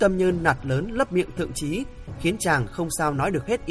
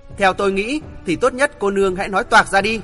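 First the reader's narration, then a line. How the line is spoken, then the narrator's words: Slow, restrained anger. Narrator (Vietnamese): Thượng Chí tức giận vô cùng, nhưng vì nể tình nên không dám ương ngạnh, chậm rãi nói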